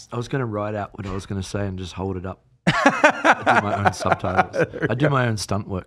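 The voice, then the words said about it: Noticeable foreign accent. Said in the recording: “He's got a funny accent, so I might have to put ... subtitles”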